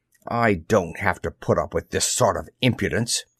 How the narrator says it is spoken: he snapped

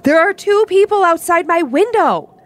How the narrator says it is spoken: started yelling at them

